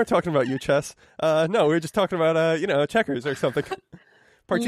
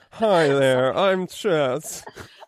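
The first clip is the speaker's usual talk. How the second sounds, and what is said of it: Weird put-on character voice. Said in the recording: “has a weird voice.”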